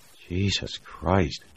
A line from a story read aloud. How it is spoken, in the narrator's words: Jamie breathed